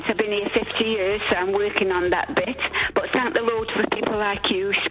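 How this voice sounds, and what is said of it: Italian accent. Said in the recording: “Don't go by my accent. ... that Italian accent will go away in time.”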